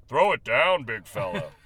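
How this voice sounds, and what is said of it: Imitates another person's voice. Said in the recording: “That was my Bill Walton impression. Sounds a lot like my Ralph Lawler.”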